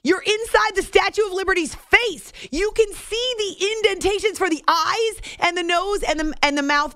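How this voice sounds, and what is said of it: Excited yelling. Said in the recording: “sorry, I'm yelling.”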